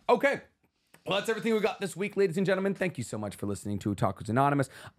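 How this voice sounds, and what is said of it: Strained, rough voice. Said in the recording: “my voice sounds awful ... I'm going to try to scream less.”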